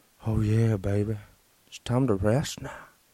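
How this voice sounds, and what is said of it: Soothing, sleepy-time voice. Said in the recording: “My voice is extremely soothing. People use my voice to get to sleep.”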